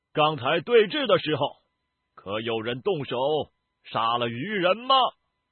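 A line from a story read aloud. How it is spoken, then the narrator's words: Cold, suddenly raised voice. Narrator (Chinese): 上官策的脸色冷了下来，忽然提高声音对焚香谷众弟子大声道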